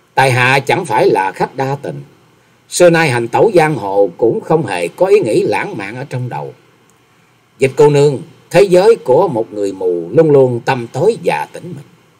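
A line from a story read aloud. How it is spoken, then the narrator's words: Smiling, slow. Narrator (Vietnamese): Nhậm Xương Bạch lại mỉm cười chậm rãi rồi nói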